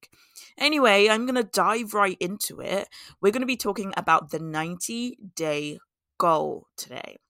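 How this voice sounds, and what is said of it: Hoarse, scratchy voice. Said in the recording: “my voice sounds a little bit hoarse ... my voice is a little bit scratchy this week”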